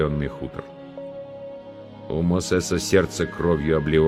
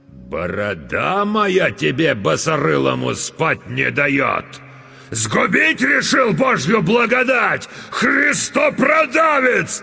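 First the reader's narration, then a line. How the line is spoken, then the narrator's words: Sudden furious yelling. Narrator (Russian): Налившись кровью, вдруг заорал атаман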